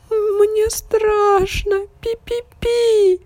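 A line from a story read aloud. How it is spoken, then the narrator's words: Tiny squeak. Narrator (Russian): запищал мышонок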